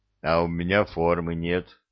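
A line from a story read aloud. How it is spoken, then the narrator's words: Deep, offended voice. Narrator (Russian): пробасил он обиженно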